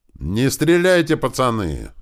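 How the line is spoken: Yelling at top of lungs. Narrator (Russian): закричал он во все горло

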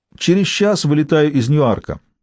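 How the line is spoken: Plain. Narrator (Russian): сказал Уиндзор

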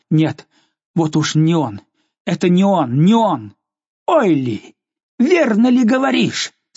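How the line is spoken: Exclaiming. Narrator (Russian): Она воскликнула

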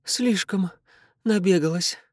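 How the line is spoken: Breathless exhale. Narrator (Russian): выдохнула она из бледного открытого рта

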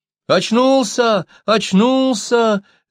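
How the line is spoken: Children shouting. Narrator (Russian): закричали ребятишки

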